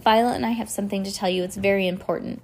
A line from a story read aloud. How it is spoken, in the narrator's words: Klaus said quickly